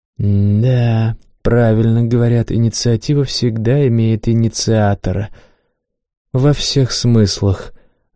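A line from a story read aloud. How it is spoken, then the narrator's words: Sighing. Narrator (Russian): вздохнул тот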